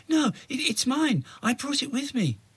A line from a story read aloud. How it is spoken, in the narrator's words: Imogen gasped and said defiantly